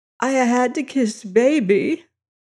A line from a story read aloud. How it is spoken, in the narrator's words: her voice saying tearfully